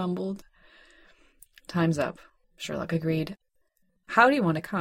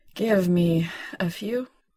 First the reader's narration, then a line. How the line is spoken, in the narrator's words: John panted